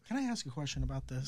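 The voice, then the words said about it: Unusually high-pitched voice. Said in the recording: “why my voice got really high”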